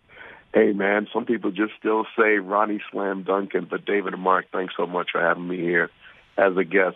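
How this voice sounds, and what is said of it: Hoarse, strained voice. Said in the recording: “I've lost my voice,”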